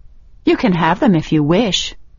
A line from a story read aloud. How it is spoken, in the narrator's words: Rachel continued calmly, as though she were speaking of trifling things